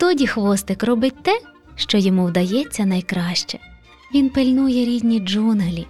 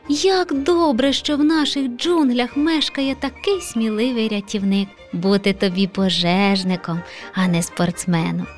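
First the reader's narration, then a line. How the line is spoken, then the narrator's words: Encouraging. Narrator (Ukrainian): Підбадьорив леопардик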